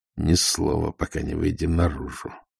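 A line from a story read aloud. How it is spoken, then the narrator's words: Whisper through teeth. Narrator (Russian): сквозь зубы прошептал Ваймс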